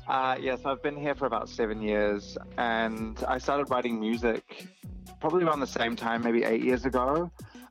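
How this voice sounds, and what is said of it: Strong New Zealand accent. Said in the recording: “I'm originally from New Zealand, from Aotearoa ... the accent is strong with this one”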